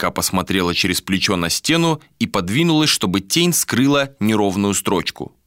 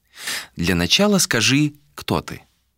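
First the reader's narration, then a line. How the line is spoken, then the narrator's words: Friendly tone. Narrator (Russian): произнес избранный доброжелательным тоном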